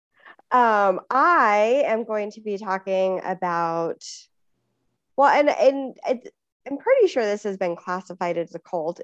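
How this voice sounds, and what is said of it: Deep voice, sounds like a cold. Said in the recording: “I am still dealing with a little bit of a cold. ... deep voice. Deep voice, Sarah, my radio voice.”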